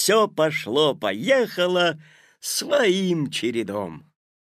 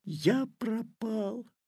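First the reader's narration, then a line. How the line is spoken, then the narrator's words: Whispered. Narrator (Russian): прошептал Петя, наклонившись к тик-таку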